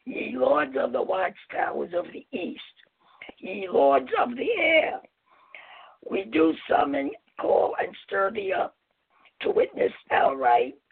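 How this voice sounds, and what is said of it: Impaired, rough-sounding voice. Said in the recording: “apologize for my voice. It's an allergy. I hope you can understand me.”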